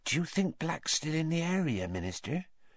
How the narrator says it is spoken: whispered Madame Rosmerta

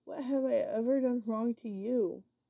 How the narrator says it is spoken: I pleaded

